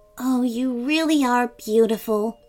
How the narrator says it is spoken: muttered under her breath

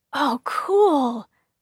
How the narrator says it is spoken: David exclaimed

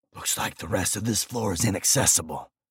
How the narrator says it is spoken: I whispered

